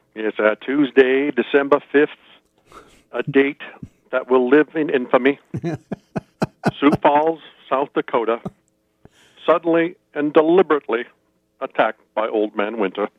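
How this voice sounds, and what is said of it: Patrician impression of a president. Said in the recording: “my very terrible impression of FDR's patrician.”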